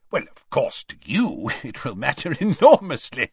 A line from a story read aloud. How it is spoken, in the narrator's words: said Scrymgeour with a laugh